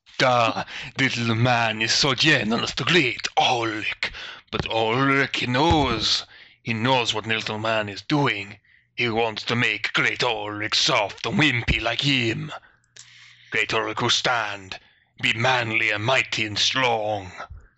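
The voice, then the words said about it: Character voice with crazy accent. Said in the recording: “With crazy accent.”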